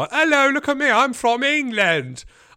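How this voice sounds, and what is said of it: American doing a fake English accent. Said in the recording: “Everyone wants to do their English accent when they meet me ... I'm an American doing an English accent.”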